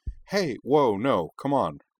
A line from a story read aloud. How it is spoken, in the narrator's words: interrupted Nall hastily